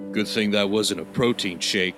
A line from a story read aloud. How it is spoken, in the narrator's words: said Brock